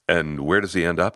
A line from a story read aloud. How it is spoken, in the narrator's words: asked